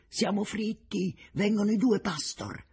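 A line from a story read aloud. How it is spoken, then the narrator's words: Sudden exclamation. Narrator (Italian): A un tratto Richter esclama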